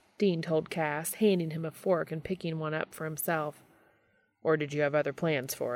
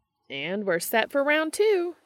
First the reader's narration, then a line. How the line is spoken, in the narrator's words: Jody called out